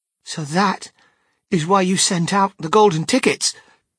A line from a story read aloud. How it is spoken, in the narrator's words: cried Charlie